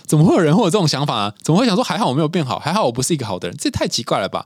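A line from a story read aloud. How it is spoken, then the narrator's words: Laughing. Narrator (Chinese): 他自己都笑了，说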